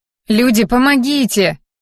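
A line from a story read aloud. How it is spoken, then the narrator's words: Shout. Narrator (Russian): крикнула я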